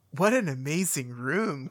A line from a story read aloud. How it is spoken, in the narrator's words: Cortana breathed